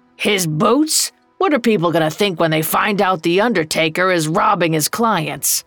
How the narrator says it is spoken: Old Joe growled

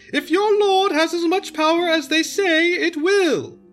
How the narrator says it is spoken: she cried

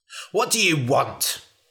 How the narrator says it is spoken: snapped the man

